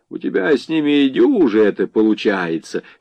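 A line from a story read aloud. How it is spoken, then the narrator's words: Commander's chuckle. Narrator (Russian): хохотнул комкор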